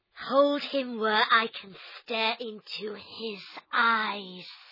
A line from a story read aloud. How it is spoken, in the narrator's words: the snake hissed